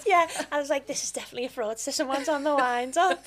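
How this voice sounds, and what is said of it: Liverpool accent. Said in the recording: “being a woman from Liverpool ... knockbacks from my accent”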